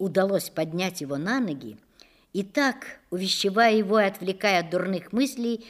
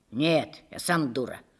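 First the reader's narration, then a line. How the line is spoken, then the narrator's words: Rough, embarrassed. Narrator (Russian): ответил он грубо и сконфуженно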